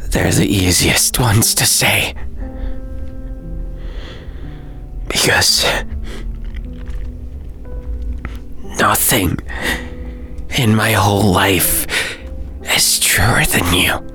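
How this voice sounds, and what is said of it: Broken, tearful voice. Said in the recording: “my voice is broken”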